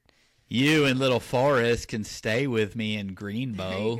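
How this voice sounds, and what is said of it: Good Forrest Gump character impression. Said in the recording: “you have a great Forrest impression.”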